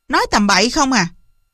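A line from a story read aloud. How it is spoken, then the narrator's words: Loud scolding. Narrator (Vietnamese): Chị Thủy hất mạnh tôi ra nạt lớn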